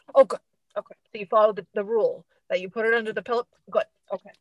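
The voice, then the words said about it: Imitates another person's voice. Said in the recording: “This was my impression.”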